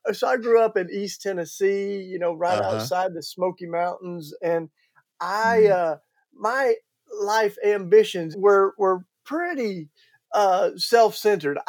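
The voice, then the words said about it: Southern American accent. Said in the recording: “I can't hide it with my Southern accent. ... It's noticeable”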